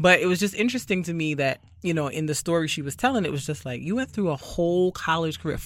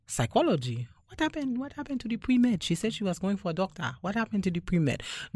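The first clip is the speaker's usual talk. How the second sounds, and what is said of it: Put-on African accent, not very good. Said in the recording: “No offense to my Africans out there. I'm not really great at the accent. I'm doing my best.”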